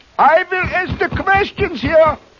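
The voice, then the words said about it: Put-on foreign accent. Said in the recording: “How'd you like my accent?”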